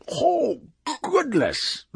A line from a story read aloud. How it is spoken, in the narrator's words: the wub cried